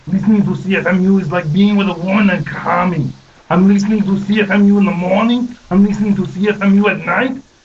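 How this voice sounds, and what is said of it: Put-on accent, imitates another person's voice. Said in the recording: “You don't like my accent? I'm the governator.”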